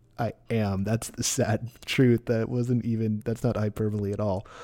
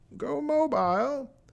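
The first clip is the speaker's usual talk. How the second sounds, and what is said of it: Impression of a movie villain's voice. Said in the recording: “my Bane impression”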